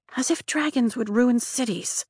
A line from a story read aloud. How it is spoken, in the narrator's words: Rhiannon mutters